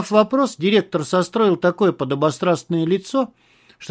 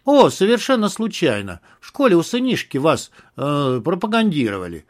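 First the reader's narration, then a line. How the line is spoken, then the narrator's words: Plain. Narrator (Russian): ответил Малахов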